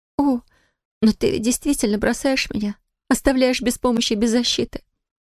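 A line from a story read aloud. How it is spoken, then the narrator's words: Sobbing. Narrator (Russian): рыдая, проговорила она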